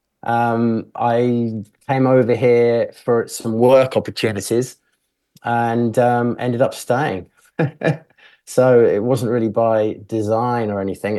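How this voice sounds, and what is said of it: British accent. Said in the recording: “you can hear you've got a British accent”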